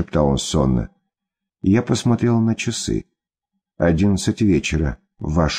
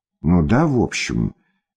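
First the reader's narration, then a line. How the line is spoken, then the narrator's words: Uncertain. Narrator (Russian): неуверенно сказал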